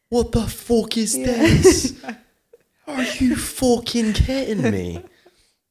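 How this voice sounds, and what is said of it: Imitates another person's voice, odd accent. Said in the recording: “That's not even his accent. ... that was a weird accent.”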